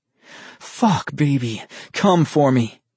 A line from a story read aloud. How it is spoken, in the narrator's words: groaned